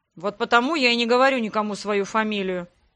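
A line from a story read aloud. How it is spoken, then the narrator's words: Displeased grumbling. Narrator (Russian): недовольно пробурчал мой названный брат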